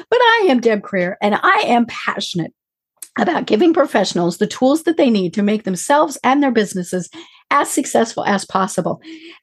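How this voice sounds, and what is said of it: Squeaky, unusual-sounding voice. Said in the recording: “I know it doesn't sound like me, but it really is me... my very squeaky voice”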